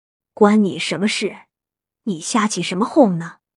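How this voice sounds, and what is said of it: Quiet, hushed speaking. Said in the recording (Chinese): “小声”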